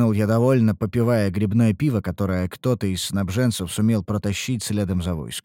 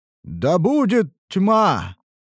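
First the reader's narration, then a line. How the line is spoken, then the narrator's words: Roared in unison, crowd. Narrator (Russian): проревели в унисон солдаты и жрецы оскверненного Родлигана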